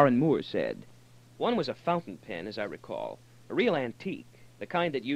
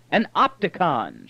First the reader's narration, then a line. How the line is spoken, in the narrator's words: shouted Brandon